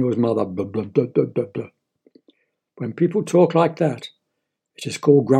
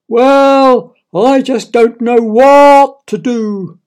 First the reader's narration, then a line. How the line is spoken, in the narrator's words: wailed Daniel's father